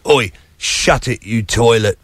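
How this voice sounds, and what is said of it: Put-on Cockney accent. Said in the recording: “we love going Cockney on this show ... I've got to be careful when I go Cockney ... one of my favourite Cockney insults”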